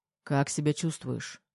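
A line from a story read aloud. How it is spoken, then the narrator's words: Plain. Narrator (Russian): спросил я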